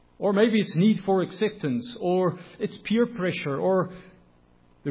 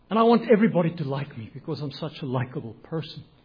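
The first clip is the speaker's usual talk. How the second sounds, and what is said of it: Sarcastic delivery. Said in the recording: “being sarcastic”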